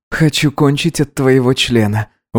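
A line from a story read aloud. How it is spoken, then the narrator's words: Breathed out. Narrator (Russian): выдохнул Гидеон ему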